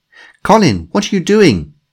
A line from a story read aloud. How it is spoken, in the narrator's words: she shouted